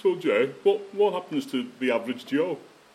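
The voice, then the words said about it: Poor put-on Wellington accent. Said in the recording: “He's from Wellington, that was a rubbish accent”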